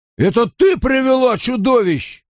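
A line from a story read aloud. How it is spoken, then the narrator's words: Yelling. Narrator (Russian): орал Дарл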